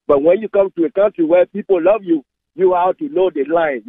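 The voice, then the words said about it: Non-native English accent. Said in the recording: “through my accent, you can tell that I'm not from here”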